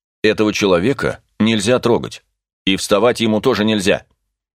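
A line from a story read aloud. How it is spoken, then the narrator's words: Angry commanding tone. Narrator (Russian): Сердитым начальственным тоном произнес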